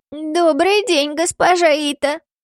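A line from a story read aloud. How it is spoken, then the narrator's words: Creaky old voice. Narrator (Russian): отозвался скрипучим старческим голосом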